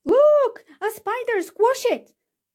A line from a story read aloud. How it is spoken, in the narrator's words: screamed someone